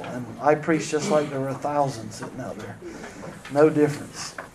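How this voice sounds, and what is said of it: Hoarse, strained voice. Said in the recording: “my voice is shot”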